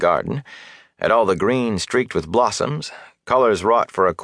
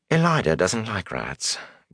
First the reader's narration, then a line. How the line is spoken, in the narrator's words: Gawain muttered vaguely